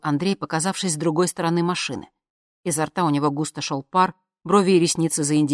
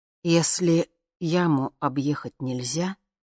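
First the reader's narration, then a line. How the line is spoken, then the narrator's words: Slow. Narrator (Russian): медленно произнес Андрей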